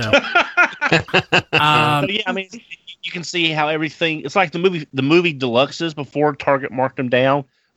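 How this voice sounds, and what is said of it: Thick regional accent. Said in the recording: “I know my accent is a little thick, but it's not that bad.”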